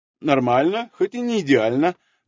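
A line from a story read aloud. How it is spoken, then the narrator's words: Pleased, cheerful voice. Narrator (Russian): довольно ответил он бодрым голосом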